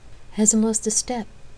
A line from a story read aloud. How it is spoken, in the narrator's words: Effany murmured